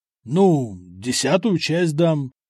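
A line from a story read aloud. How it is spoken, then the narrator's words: Strained reluctant words. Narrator (Russian): выдавил из себя граф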